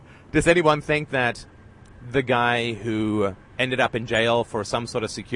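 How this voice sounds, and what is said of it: Usual voice. Nothing is said of it.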